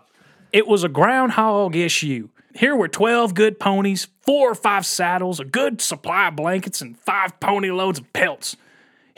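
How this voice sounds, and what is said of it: Put-on Old West outlaw accent. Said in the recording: “here comes my Billy the Kid accent.”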